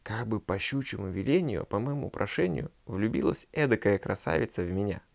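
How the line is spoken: Soft quiet speech. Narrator (Russian): И, видя дурак ее весьма прекрасную, говорил тихонько

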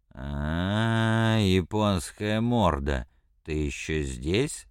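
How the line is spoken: Drunken mumble. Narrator (Russian): сказал он пьяным голосом, едва шевеля ртом

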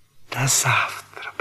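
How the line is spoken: Whisper. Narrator (Russian): прошептала она

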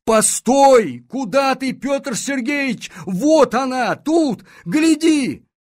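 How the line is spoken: Shouting, losing composure. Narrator (Russian): Полицмейстер не выдержал и закричал

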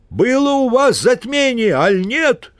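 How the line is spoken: Distant shout. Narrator (Russian): крикнул из-за кустов пастух

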